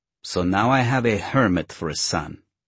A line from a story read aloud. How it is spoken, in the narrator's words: his mother complained bitterly